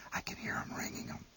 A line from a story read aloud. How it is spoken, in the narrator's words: whispered